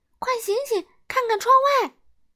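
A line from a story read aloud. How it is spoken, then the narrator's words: Shout. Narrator (Chinese): 荒唐先生大喊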